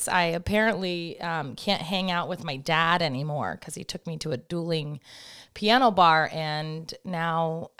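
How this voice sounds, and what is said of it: Strained, worn-out voice. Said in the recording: “forgive my voice. ... I feel like I can't talk”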